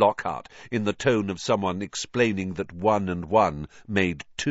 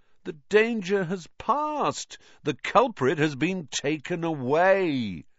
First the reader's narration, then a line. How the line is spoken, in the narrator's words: said Lockhart, speaking slowly, as though they were all a bit dim